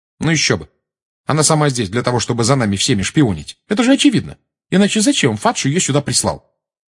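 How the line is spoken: Sharp tone. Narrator (Russian): резким тоном сказала Гермиона

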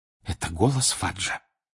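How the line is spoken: Whispered. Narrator (Russian): прошептала миссис Уизли

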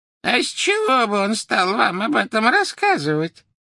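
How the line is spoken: Creaky voice. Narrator (Russian): проскрипела Мюриэль

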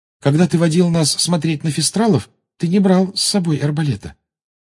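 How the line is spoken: Timid. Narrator (Russian): робко сказала Гермиона

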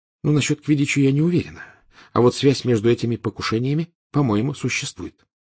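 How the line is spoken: Quiet. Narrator (Russian): тихо сказала Гермиона

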